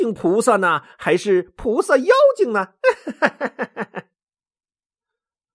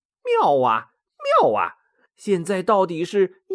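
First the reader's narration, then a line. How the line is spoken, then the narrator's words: Joking. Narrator (Chinese): 孙悟空 开玩笑说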